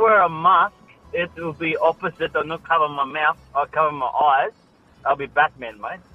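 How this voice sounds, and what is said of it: Usual voice. Nothing is said of it.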